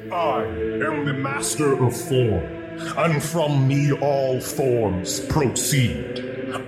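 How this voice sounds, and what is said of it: Deep character voice. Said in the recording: “deep voice”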